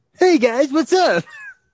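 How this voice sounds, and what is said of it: Imitates another person's voice. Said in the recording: “do a Ryan impression ... it's not that good ... It's not the same”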